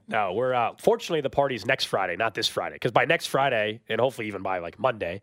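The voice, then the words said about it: Hoarse, sick-sounding voice. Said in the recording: “the voice should be fully back ... someone that sounds like this ... everybody thinks you're sick ... a really weird voice”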